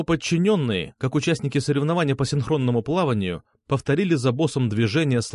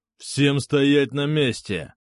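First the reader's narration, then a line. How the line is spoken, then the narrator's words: Growled. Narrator (Russian): прорычал усы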